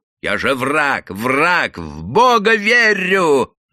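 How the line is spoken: Terrible shrieking in unison. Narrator (Russian): Враз завизжали цыганки так страшно, будто обеим всадили по сапожному ножу в живот

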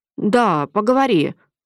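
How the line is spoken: Hesitant agreement. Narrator (Russian): неуверенно согласился Андрей

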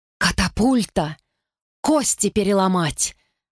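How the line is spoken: Hoarse rasp through coughing. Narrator (Russian): Сквозь кашель прохрипела Изи

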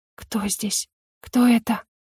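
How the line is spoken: Hoarse whisper. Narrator (Russian): хрипло прошептала

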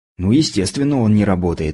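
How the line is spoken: Snort. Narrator (Russian): фыркнул я

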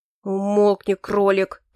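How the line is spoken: Through gritted teeth. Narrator (Russian): процедил сквозь зубы Эрик

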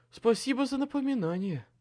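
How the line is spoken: Choked rasp, noose on throat. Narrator (Russian): прохрипел затянувшуюся на горле петлю

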